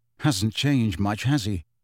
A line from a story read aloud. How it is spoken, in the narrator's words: Harry muttered to Ginny